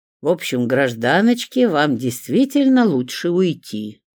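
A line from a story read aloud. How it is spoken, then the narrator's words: Summing up. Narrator (Russian): подвел итог Иван Тимофеевич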